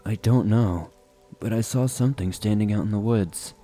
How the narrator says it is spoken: He replied in a monotone voice

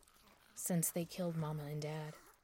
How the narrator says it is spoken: she muttered

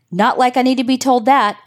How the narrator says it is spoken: Alan shouted

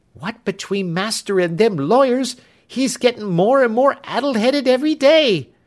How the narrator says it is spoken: cried Clemency

